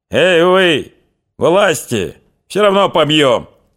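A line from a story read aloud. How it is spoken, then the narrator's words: Shouting from above. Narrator (Russian): закричали сверху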